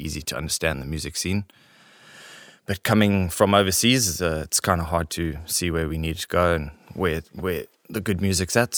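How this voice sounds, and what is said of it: French accent. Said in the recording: “is from France. you can obviously tell by his accent”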